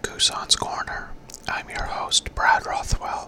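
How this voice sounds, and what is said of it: Whispering. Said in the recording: “Why am I whispering?”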